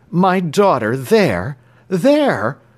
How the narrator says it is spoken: cried the American, springing from his seat

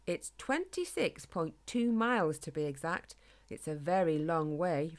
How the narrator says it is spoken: replied David

